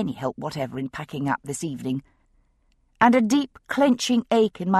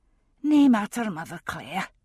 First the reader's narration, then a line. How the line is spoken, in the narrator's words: she said with a sigh